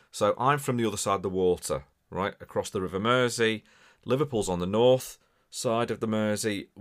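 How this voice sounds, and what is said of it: Scouse, Liverpool-area English accent. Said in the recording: “As much as I sound Scouse and from Liverpool ... we have a very similar accent, although mine can be a little bit mixed up”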